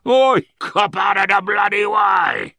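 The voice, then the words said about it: Angry shouted Cockney accent. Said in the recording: “he shouted angrily in a distinctive Cockney accent.”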